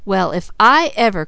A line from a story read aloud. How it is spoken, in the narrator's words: cried Mickey